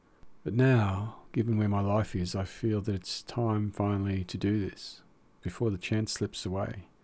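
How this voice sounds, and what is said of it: Australian accent. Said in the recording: “an Australian one, I suppose, judging by our accent.”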